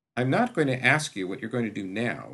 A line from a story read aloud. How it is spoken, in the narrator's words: she said pointedly